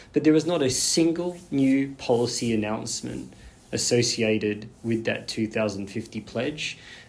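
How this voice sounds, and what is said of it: Australian accent. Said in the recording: “as you can tell, I'm Australian, right, from my accent.”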